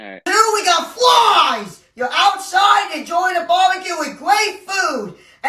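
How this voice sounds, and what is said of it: New Jersey accent with heavy lisp. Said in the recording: “the heavy lisp ... he's not a Sopranos character ... his accent ... New Jersey, Staten Island.”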